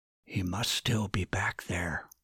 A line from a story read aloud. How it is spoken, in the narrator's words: Martin whispered back to Dustin